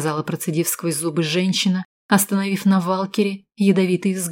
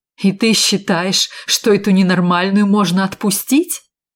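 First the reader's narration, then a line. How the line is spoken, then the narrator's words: Exclaiming. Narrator (Russian): Воскликнул Валкер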